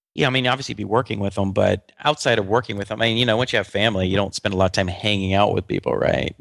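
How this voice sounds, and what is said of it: Subdued, low-energy voice with a cold. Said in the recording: “you sound like a little subdued on this show? ... Are you ill? Are you sick? ... Yeah, just a little, just a tiny. You're not your usual chirpy self. ... I'm a little sick. I think I have a cold.”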